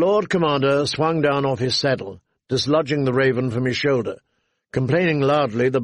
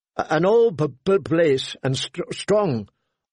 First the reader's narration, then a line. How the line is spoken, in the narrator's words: Thorin Smallwood said